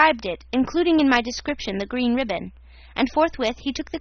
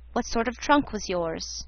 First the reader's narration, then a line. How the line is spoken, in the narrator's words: he said in a gentlemanly tone, that is to say, a tone not hard nor terrifying